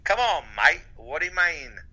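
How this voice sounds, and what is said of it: Bad Australian accent drifting redneck. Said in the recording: “your accent... Is that the English one or is that the Australian one?... I went Australian to country redneck... It's pretty terrible all the way around.”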